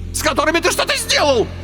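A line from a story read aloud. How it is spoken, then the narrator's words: Shriek. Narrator (Russian): взвизгнул Карбулон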